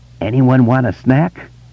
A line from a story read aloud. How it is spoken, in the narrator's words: He closed his eyes tight and croaked